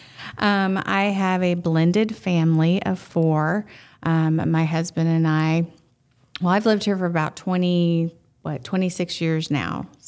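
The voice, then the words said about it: Southern Texas drawl. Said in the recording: “originally, I am from Marshall, Texas, so you're going to hear that southern drawl come out. When I get passionate about something, it really sticks out.”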